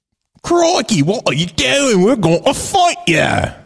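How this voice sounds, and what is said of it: Mock British accent. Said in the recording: “But then you wouldn't hear their British accents.”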